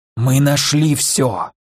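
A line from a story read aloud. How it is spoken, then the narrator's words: Loud whisper. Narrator (Russian): громким шепотом поделился он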